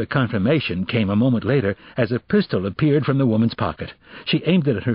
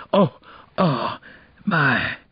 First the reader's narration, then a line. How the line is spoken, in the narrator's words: whispered